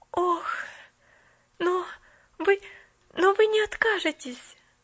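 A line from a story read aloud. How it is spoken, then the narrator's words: Panicked pleading. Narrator (Russian): взмолилась Поллианна в мгновенной панике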